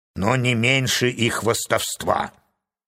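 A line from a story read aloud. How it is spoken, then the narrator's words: Grumbling. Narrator (Russian): проворчал моряк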